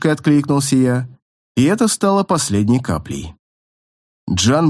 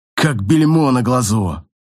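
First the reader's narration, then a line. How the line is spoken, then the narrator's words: Growling. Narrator (Russian): услышал я в рычании, издаваемом Джаном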